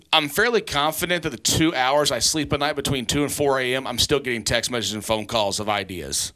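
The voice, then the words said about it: Slight southern American twang. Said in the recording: “the little bit of the southern twang in my voice”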